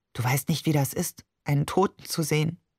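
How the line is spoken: Unusually quiet. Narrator (German): sagte schließlich ungewohnt leise

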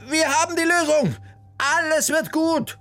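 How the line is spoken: Calling out joyfully. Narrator (German): rief sie den beiden entgegen

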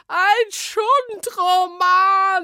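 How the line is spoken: Shrieking. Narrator (German): kreischte

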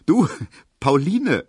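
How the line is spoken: Laughing call. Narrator (German): rief Emil Kubinke lachend

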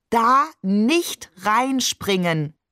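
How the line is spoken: Slow, overly distinct. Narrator (German): sagt er überdeutlich und langsam, damit wir uns das auch ja merken

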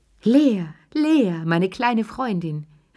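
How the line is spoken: Old woman calling. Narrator (German): rief die alte Lilly

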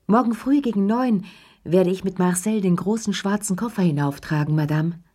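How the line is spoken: Concierge calling down hallway. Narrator (German): die Stimme von Ernest, dem Concierge, … der durch den Flur rief

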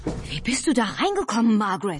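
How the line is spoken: Very excited call. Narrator (German): rief Albert völlig aufgeregt

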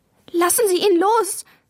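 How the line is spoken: Tearful cry. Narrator (German): rief Maya, und in ihre Augen kamen Tränen

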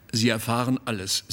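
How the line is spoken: Plain. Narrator (German): sagte

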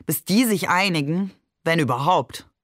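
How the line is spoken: Mocking. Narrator (German): sagte er spöttisch

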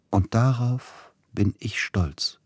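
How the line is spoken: Quiet. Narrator (German): sagte Edvard Grieg leise

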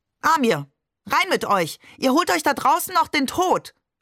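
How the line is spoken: Shouting. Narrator (German): schrie sie

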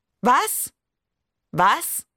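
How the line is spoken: Call out. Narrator (German): rief die Lehrerin

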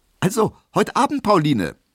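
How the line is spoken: Called out. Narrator (German): rief er

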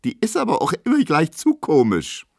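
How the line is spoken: Squeaking. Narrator (German): quiekt Emma

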